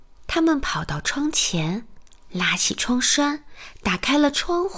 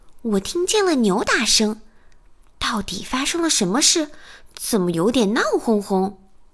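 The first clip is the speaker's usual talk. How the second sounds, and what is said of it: Thin, high-pitched character voice. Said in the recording (Chinese): “丽丽用尖细的声音说”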